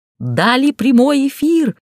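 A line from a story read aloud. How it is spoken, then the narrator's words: Excited yell, big man. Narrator (Russian): возбужденно завопила гора мышц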